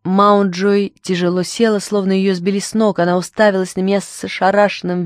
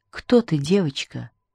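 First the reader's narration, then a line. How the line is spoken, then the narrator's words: Whisper. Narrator (Russian): прошептала она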